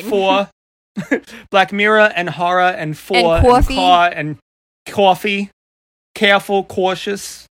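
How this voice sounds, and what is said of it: New York Long Island accent. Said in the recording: “I'm from New York ... Long Island is showing ... I've tried to refine my accent ... old school New Yorker way ... I grew up speaking like this”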